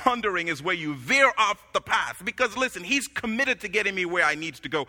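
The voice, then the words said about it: Noticeable accent. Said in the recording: “my accent can be confusing”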